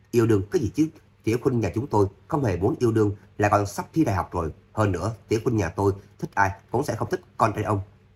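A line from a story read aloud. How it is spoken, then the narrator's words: Laughing. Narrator (Vietnamese): Người đàn ông béo tóc kia rít một hơi thuốc, cười nói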